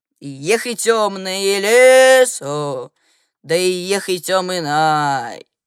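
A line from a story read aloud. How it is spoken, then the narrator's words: Angry muttered humming. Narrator (Russian): сердито мурлыкать под нос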